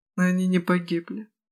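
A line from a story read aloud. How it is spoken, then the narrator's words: Quiet elder mage. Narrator (Russian): тихо промолвил старший магик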